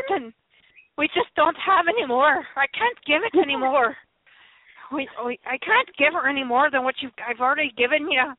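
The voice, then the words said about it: Scottish accent, Scotty character voice. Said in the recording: “I cannot do a Scottish accent ... doing a much better Scotty impersonation.”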